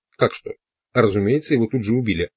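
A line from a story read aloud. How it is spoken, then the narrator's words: Reply then booming laughter. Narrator (Russian): ответил Дун Хуан и засмеялся раскатистым хохотом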